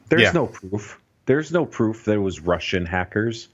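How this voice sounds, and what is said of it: Imitates another person's voice. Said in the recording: “my Donald Trump impersonation.”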